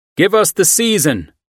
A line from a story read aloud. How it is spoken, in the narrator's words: they called out